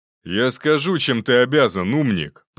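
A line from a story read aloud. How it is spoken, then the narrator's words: Roar. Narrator (Russian): проревел тот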